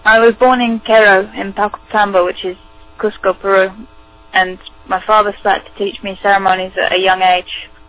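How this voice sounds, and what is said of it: British or Irish accented English. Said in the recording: “she learned English in Great Britain, so you will hear a British or Irish accent.”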